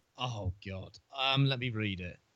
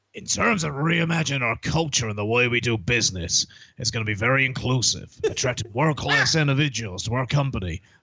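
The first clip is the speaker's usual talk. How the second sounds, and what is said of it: Imitates another person's voice. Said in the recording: “your Vince impression”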